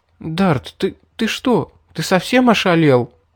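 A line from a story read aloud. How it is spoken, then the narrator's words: Stammering, dazed question. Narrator (Russian): запинаясь, спросила пришедшая в себя Мэри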